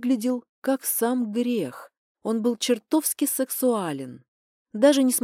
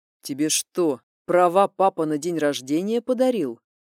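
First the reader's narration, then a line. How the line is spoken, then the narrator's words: Menacing growl. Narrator (Russian): зарычал он сходу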